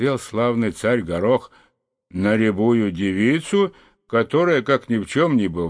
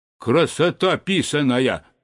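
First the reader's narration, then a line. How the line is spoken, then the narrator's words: Stern question. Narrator (Russian): строго спросил он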